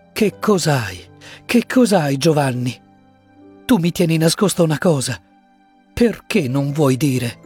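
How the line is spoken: Woman pleading. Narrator (Italian): supplicò lei

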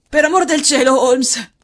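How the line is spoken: Hoarse exclamation. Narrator (Italian): esclamò con voce roca

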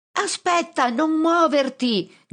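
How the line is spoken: Shouting with all strength. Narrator (Italian): grido con tutte le mie forze

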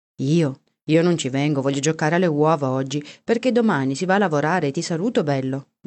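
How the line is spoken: Plain. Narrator (Italian): disse Paolo

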